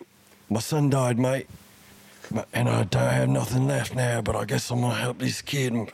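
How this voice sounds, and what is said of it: Weak attempt at Australian accent. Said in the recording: “I can't do an Aussie accent”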